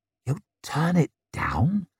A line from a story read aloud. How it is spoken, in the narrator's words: whispered Glarwood